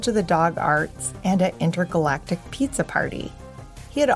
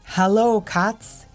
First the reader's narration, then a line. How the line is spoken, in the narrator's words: he said